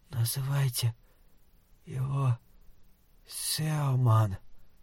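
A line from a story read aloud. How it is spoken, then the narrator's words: Hoarse rasp. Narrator (Russian): прохрипела Сюзанна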